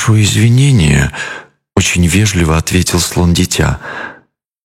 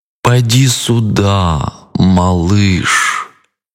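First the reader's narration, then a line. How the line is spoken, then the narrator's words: Drawling crocodile. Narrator (Russian): протянул крокодил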